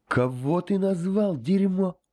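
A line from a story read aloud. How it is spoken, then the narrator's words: Angry bark, mouth restricted. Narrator (Russian): Икумут, стараясь не обращать внимания на меч, мешающий ему полностью открывать рот, зло рявкнул ей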